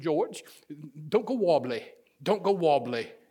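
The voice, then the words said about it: British accent impression. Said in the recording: “I can just hear her in a British accent.”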